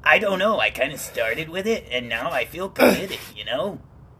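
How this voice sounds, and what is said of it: Silly Muppet-like character voice. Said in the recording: “doing that voice ... You're a weird little Muppet.”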